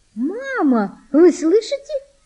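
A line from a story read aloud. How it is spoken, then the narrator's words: Joyful high-pitched exclamation. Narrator (Russian): радостно, тонким голосом воскликнула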